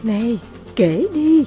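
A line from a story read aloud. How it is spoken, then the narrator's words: Mischievous mysterious whisper. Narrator (Vietnamese): nàng mỉm cười láo lĩnh và bí ẩn, rồi cuối cùng thì thào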